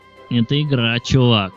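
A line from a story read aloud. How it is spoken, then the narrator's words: Grating unpleasant voice. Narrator (Russian): заговорил парень, скрежещущим, неприятным голосом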